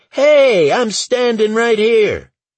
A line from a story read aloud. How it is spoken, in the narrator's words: Lauren, shout